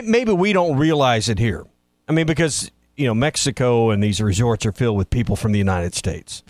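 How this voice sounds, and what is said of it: Southern American accent, Arkansas. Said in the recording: “People would try to guess my accent... No one ever guessed Arkansas... North Carolina was a common guess where I was from.”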